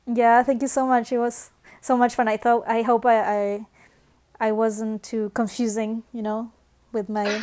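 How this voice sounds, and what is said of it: Latino accent. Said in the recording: “Latino accent”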